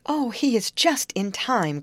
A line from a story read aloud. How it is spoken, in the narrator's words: cried Molly